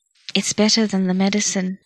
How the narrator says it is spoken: she murmured, passing into her dreams

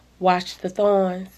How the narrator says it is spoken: she breathed

